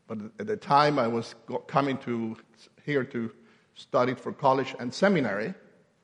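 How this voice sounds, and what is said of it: Kentucky accent. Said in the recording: “I was being sent to Kentucky. That's where my accent come from”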